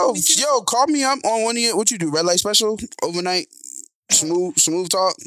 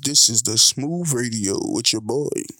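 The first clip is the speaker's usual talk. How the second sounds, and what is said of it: Deep smooth radio DJ voice. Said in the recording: “I've been practicing my deep voice.”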